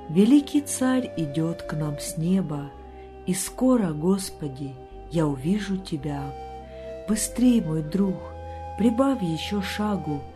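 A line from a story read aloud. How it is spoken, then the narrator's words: Encouraging. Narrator (Russian): подбадривал он своего коня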